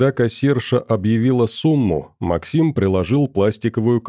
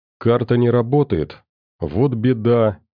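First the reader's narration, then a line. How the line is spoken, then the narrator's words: Falsely gentle. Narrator (Russian): притворно мягко сказал Максим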